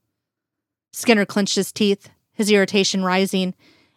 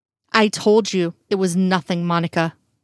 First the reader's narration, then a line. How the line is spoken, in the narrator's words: he said tightly, trying to keep his voice under control